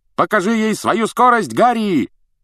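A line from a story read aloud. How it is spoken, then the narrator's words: Shout while flying past. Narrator (Russian): крикнул Фред, пролетая мимо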